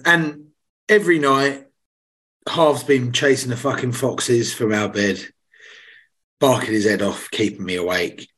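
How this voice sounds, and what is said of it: Slightly hoarse voice. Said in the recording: “my voice is slightly hoarse”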